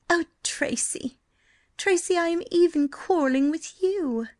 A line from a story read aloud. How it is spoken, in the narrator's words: she cried wretchedly